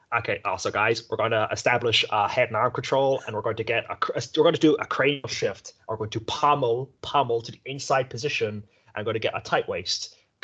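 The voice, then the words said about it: Imitates another person's voice. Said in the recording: “my Gordon Ryan impression”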